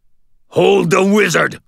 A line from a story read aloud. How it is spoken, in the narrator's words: snarled the Red King